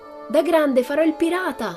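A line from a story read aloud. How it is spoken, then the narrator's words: Shrieking. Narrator (Italian): strillava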